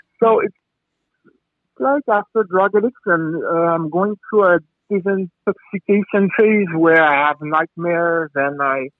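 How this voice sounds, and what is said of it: Strong French accent. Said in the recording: “I'm French. Sorry for my big accent.”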